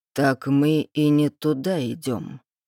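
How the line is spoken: Mocking drawl. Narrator (Russian): издевательски протянул он

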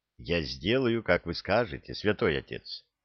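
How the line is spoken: Dejected girl speaking. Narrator (Russian): уныло сказала девушка

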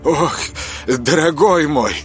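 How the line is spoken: Relieved exhale. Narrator (Russian): облегченно выдохнул Константин

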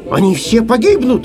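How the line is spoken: Shouted. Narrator (Russian): закричал Самоделкин

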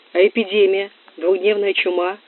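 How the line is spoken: Plain question. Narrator (Russian): спросила Кора

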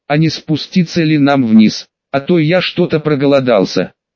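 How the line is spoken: Amused, addressing everyone. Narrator (Russian): Я хмыкнул, сказал, обращаясь ко всем

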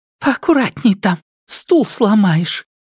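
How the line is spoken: Loud scolding whisper. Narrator (Russian): Громким шепотом осадил маленький суетливый напарник

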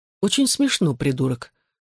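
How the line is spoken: Impassive reply. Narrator (Russian): бесстрастным тоном ответил я

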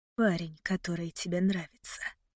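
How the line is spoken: Whispered into ear. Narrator (Russian): прошептал он в мое пылающее ухо

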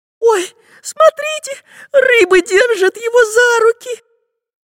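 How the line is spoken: Squeak. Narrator (Russian): пискнула Настенька

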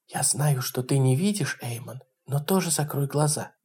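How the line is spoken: Whisper. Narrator (Russian): прошептала Айви

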